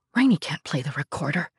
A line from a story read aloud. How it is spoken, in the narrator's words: he whispered, a rare moment of anxiety